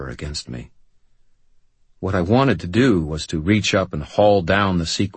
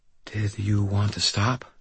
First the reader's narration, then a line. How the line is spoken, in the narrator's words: she whispered